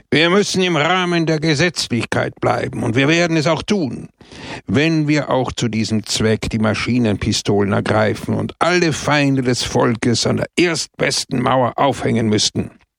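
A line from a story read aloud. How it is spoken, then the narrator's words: Sharp, forceful. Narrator (German): da er ein Extremist war, sprach er scharf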